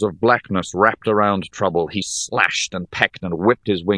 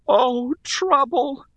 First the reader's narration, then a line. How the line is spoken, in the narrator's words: wailed Rhea